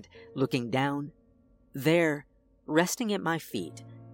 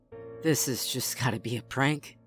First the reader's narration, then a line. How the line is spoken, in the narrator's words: said under my breath